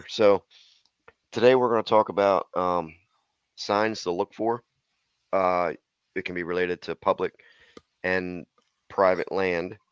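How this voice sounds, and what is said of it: Hoarse, froggy voice. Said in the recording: “pardon my voice. It's a little froggy right now”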